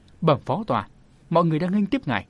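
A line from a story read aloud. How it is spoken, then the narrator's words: Apologetic smiling speech. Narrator (Vietnamese): Diệu Thủ Nương Tử dường như có phần áy náy, mỉm cười mở lời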